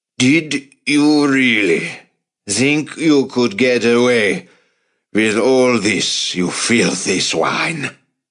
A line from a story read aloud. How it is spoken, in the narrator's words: Von Strassen bellowed